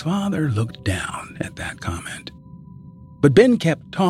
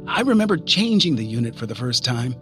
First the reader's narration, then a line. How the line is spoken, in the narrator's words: he said